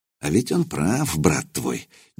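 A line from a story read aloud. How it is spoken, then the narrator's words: Quiet. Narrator (Russian): негромко произнес Лузгай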